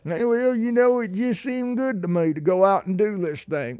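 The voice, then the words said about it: Put-on Oklahoma regional accent. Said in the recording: “Do you like my voices today? I tell you what, I've got a lot of them living here in Oklahoma. You don't have to go far to find some interesting accents.”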